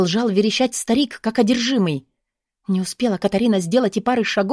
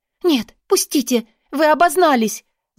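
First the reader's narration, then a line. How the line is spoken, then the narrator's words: Frightened shrill squeal. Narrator (Russian): Заверещала испуганно в ответ Катарина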